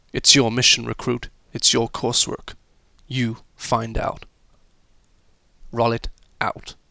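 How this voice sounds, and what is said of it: Poor put-on American accent. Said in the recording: “my rather appalling, appalling um, American accent”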